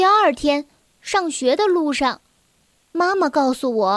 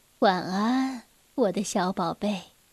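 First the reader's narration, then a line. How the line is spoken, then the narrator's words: Gentle motherly voice. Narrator (Chinese): 妈妈温柔地说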